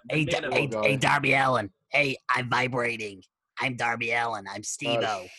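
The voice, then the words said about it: Imitates another person's voice. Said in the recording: “quite a good impression. ... It was a good impression.”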